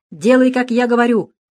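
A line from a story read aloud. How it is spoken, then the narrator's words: Nearly shouted. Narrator (Russian): почти крикнул Дронго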